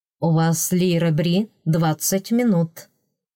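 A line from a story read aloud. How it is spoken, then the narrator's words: Calm, polite, firm. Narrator (Russian): Спокойно, вежливо, но непреклонно сообщил Родерик Делаэрт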